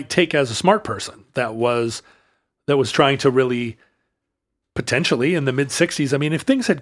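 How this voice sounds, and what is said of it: Usual voice. Nothing is said of it.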